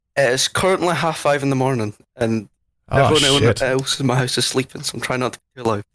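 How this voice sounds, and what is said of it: Scottish accent. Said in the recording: “I'm from Scotland... Love the accent.”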